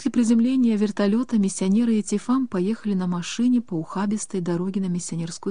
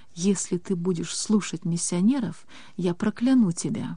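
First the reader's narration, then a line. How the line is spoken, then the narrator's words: Whisper in ear. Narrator (Russian): прошептал ей в ухо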